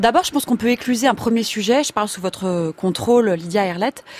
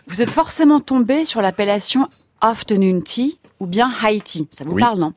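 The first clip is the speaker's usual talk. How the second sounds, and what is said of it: Put-on accent on English words. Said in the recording (French): “j'adore votre accent ... Je ne vais pas le garder très très longtemps. J'ai fait une fois, maintenant je vais passer à la française. C'est un vrai bonheur à entendre.”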